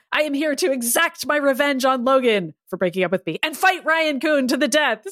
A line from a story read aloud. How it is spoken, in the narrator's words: Silver Samurai screamed